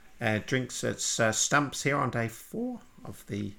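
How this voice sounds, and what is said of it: Good Richie Benaud commentator impression. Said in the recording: “do an impression of whoever that is ... Richie Benno, the great Richie Benno ... That's a good impression of Richie Benno”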